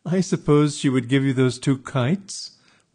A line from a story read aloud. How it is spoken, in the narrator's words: my sister laughed derisively